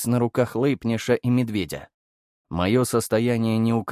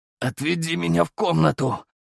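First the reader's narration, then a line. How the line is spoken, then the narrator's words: Hoarse wheeze. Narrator (Russian): прохрипел я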